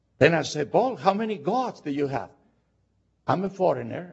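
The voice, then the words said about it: Foreign-accented English. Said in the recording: “my accent gives away I'm a foreigner... in England, they thought I was a Scotland”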